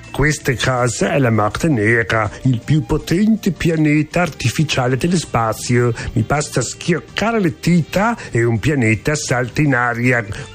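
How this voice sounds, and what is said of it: Put-on German accent in Italian. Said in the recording (Italian): “il tuo accento tedesco odioso”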